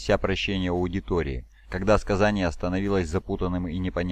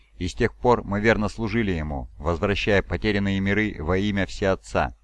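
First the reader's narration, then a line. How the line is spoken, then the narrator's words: Plain. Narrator (Russian): сказал Булвайф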